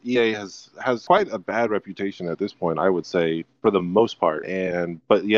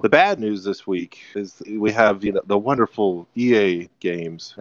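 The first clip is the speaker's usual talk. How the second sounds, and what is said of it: Sarcastic tone. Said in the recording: “I'm being sarcastic there.”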